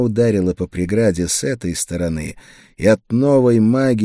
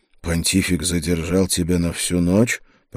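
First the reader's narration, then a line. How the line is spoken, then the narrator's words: Muttering. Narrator (Russian): пробормотал я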